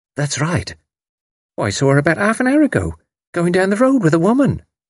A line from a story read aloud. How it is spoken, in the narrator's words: Sprott said eagerly